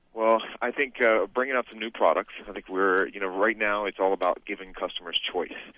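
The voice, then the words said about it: Deep, smooth radio voice. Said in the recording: “Can I just tell you how much I love ... voice? ... he's got a radio voice.”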